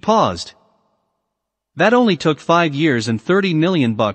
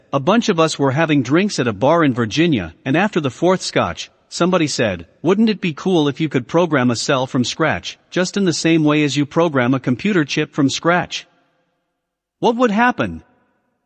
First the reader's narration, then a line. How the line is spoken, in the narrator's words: He chuckled and said